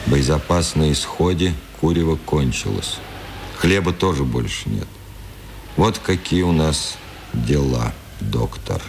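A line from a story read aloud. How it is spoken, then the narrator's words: Quiet sullen. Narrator (Russian): Цветков сказал ему в этот день негромко и угрюмо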